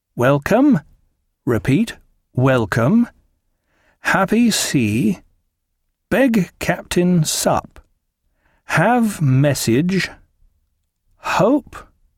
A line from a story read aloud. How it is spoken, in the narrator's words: he said, and slowly read out